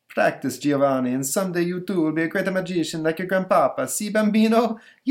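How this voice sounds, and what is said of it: Stereotypical Italian accent. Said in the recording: “I'm Italian, so I get away with, you know, using stereotype accent here.”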